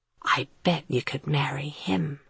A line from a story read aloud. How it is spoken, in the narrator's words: Matt announced in a solemn whisper